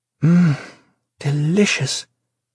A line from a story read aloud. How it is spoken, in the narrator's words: she sighed softly, mouth full